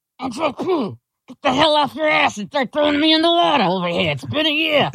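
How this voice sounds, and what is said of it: Imitates another person's voice. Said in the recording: “my impression of JP's dad in the coffee can in the closet”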